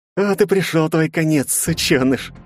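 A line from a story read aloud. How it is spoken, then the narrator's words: Gleeful. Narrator (Russian): радостно сообщил Григорий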